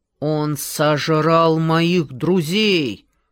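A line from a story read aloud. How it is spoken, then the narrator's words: Angry growl. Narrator (Russian): Зло прорычал Одиссей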